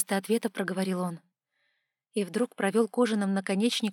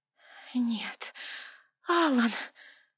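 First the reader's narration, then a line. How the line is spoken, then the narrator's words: Hoarse female rasp. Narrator (Russian): прохрипела я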